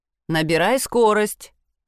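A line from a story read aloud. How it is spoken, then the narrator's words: Mocking command. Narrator (Russian): насмешливо командует Мирон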